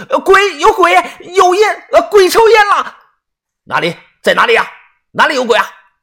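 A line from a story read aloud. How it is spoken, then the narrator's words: Panicked loud shout. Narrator (Chinese): 同时口中大喊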